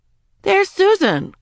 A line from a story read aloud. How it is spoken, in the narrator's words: cried Janet